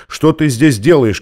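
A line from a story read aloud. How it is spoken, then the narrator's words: Shout. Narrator (Russian): крикнул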